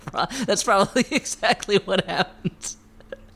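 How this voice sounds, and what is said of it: Usual voice. Nothing is said of it.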